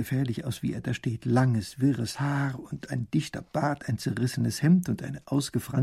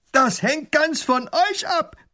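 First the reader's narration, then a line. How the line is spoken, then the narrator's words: Robber roaring. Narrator (German): brüllt der Räuber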